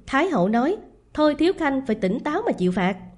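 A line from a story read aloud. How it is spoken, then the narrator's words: Contemptuous guards' voices. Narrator (Vietnamese): giọng khinh bỉ của bọn Thiên Ngu vệ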